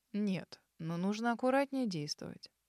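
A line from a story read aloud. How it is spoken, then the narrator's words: Gentle reply. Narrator (Russian): мягко ответил Арман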